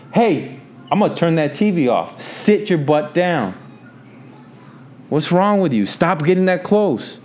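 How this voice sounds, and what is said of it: Stern scolding dad voice. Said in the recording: “dad voice. You heard the dad voice.”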